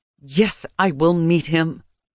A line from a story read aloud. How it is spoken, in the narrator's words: I said through clenched teeth